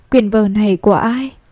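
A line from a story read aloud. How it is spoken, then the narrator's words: Sighing, stern teacher. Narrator (Vietnamese): thầy thở dài ra một tiếng rồi đập bàn nói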